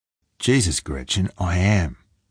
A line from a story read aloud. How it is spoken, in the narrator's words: Falk said, trying to keep his tone light